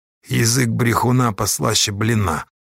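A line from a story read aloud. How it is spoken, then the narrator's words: Peasant grumbling. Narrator (Russian): опять пробурчал мужик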